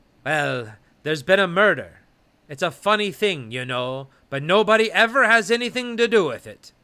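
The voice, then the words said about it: Mixed Scottish-Irish put-on accent. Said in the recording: “somewhere between a Scottish and an Irish accent... A little hint of a Pakistani.”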